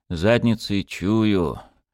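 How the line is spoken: Upset muttering. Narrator (Russian): расстроенно бормотал Микульчин

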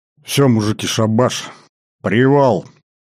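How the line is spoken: Hoarse exhale. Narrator (Russian): хрипло выдохнул младший лейтенант Конышев

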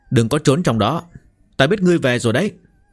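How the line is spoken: Raised voice calling. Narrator (Vietnamese): có người cao giọng gọi

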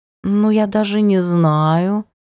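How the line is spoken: Affected drawl, kitten. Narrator (Russian): жеманно протянул котик

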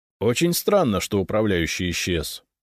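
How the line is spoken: Dry. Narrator (Russian): сухо кивнул Фискалов

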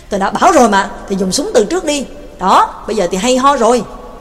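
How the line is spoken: Irritated reproach. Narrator (Vietnamese): Mạc Kinh bực bội án trách

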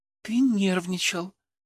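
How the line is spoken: Whisper in the ear. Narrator (Russian): прошептала на ухо

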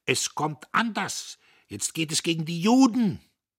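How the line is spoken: Distorted, furious shout. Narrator (German): Ein verzerrtes Gesicht schreit ihm zu

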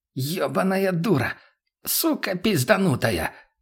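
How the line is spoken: Hoarse wheeze. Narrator (Russian): прохрипел знакомый голос справа

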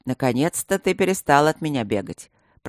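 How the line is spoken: Burly man grumbling. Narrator (Russian): пробурчал широкий и снова обросший бородой Блакори

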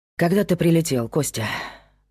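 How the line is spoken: Sighing. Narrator (Russian): вздохнул Павел

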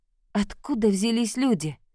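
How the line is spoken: Weak, heartbroken voice. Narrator (Russian): Она говорила таким слабым голосом, как будто ее сердце уже было разбито

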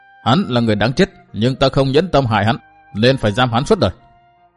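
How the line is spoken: Cold, wry woman. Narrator (Vietnamese): Trung niên mỹ phụ cười nhạt

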